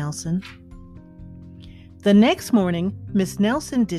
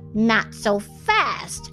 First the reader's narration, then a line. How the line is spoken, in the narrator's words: hissed an unpleasant voice